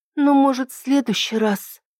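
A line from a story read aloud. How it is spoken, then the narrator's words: Sigh. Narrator (Russian): вздохнула Ида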